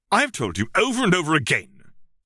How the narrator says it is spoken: Severus snapped

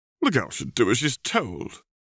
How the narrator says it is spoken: Walburga said haughtily

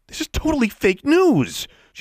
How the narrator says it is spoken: she said loudly

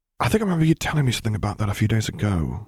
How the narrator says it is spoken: he murmured

